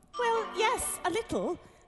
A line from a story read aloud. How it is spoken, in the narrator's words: Alice replied gently